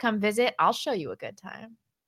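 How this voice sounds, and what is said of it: Exaggerated sexy voice. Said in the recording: “I just projected that. I don't know what sexy voice she used.”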